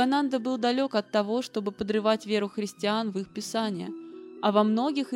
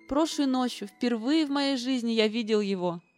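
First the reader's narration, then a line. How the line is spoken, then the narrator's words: Tearful exclamation. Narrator (Russian): Со слезами на глазах он воскликнул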